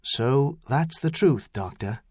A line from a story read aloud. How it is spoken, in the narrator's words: he said quietly